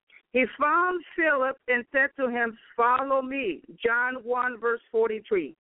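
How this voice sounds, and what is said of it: Speaks with a foreign accent. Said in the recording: “excuse me for my accent”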